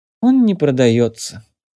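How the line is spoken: Dejected sigh. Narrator (Russian): сокрушенно вздохнул Евгений

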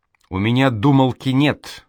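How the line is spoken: Angry. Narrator (Russian): зло проговорил Проня

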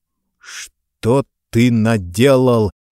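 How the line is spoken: Sepulchral, hurt question. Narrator (Russian): за могильным голосом спросил Нестеров

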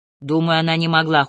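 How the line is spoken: Cold. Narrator (Russian): холодно сказала я

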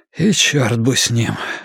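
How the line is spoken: Hoarse mutter. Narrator (Russian): хрипло пробормотал

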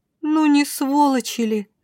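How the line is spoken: Offended drawl. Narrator (Russian): обиженно протянула вампирша

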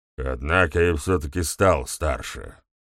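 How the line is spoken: Gloomy remark. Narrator (Russian): мрачно заметил ГМ

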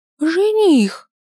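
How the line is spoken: Exclamation. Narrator (Russian): воскликнул

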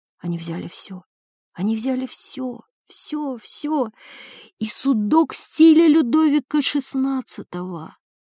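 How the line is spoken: Barely audible childlike whisper. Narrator (Russian): Еле слышным голосом, голосом ребенка, она прошептала

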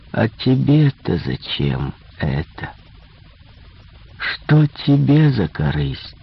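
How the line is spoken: Tender smiling, young man. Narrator (Russian): Улыбнулся ласково молодой человек

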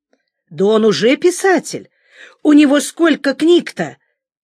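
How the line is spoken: Exclaimed. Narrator (Russian): воскликнула Оля, секретарша отдела

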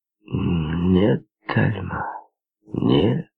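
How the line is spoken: Slow drawl. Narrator (Russian): медленно растягивая слова, произнес Терри

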